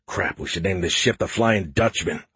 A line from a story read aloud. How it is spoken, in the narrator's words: I mumbled